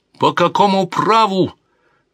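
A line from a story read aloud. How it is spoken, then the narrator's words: Exclaimed. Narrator (Russian): воскликнул Альфонсо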